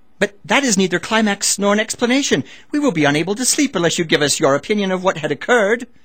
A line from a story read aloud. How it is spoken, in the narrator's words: One of them exclaimed